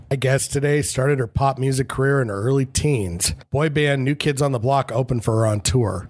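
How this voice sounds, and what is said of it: Scratchy, congested voice. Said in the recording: “this smoke-filled weather is making my allergies act up ... my voice is scratchy and congested”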